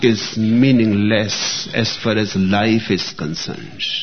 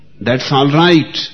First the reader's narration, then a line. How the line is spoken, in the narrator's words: yelled back